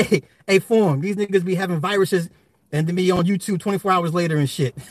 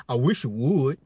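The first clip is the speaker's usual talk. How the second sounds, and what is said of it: Imitates another person's voice. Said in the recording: “in my Kevin Gates voice,”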